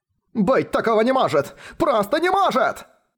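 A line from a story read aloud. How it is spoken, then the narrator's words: Shouting. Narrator (Russian): кричал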